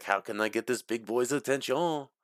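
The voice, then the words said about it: Put-on French accent. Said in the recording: “I don't know why he's French all of a sudden”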